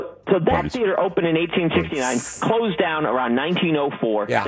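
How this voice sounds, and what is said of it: Usual voice. Nothing is said of it.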